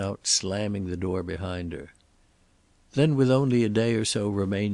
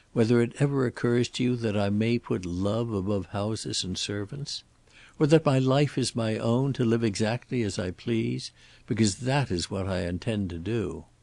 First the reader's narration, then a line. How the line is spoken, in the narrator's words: Elizabeth said calmly